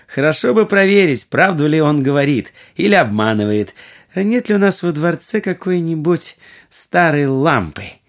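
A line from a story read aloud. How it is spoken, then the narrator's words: Laughing, then speaking. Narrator (Russian): Будур рассмеялась и сказала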